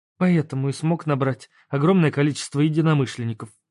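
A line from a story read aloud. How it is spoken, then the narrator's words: Sad sigh. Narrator (Russian): грустно вздохнула Света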